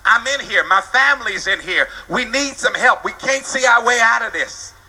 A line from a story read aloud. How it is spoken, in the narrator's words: somebody hollered back